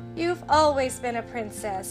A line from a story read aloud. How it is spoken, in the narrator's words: Blair said with a laugh